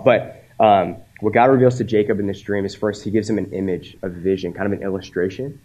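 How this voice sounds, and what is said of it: Congested voice from a cold. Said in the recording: “I've been wrestling with a sinus cold, as you can probably tell in my voice”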